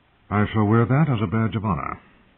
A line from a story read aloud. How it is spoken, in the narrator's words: Ned said dryly